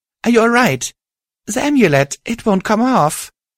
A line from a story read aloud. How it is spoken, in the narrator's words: said shakily